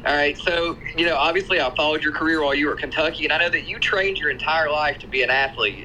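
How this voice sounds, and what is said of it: Tennessee Southern accent. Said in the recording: “fellow Tennessean here ... I can hear the accent.”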